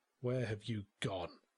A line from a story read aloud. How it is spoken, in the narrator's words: I muttered